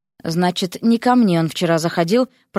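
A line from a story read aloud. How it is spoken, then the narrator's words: Muttered. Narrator (Russian): пробормотала Вася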